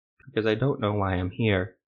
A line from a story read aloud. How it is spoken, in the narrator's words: Armin said softly